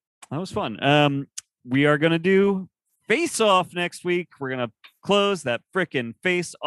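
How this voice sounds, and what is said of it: Usual voice. Nothing is said of it.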